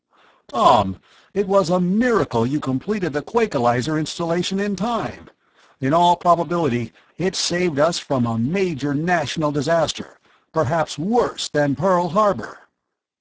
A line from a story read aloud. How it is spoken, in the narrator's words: Miles exclaimed